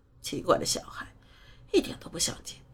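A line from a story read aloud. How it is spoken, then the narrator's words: Muttering. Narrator (Chinese): 姨妈嘴里嘟囔着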